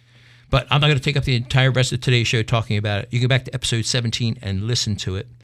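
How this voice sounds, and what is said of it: Congested voice from a cold. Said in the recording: “you can tell I'm getting over a cold. I got that radio voice.”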